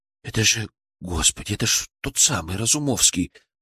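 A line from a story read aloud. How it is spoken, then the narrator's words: Whispering. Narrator (Russian): прошептал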